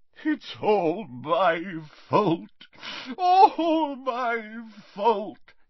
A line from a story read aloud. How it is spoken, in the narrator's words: he sobbed